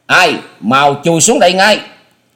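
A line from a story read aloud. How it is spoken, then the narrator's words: Thunderous roof-shaking shout. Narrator (Vietnamese): Âm thanh của tiếng quát chấn động cả mái nhà, cột kèo vang lên nghe răng rắc dữ dội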